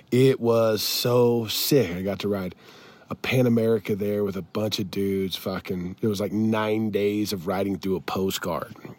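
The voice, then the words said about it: Raspy, worn-out recovering voice. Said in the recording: “As you can hear, I sound like fucking Ron White. ... My voice is slowly coming back”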